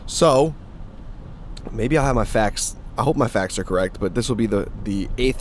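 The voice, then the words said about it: Hoarse, strained voice. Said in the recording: “This isn't really a podcast voice this morning, and I do apologize. I was yelling pretty loud at the top of my lungs yesterday, screaming, actually.”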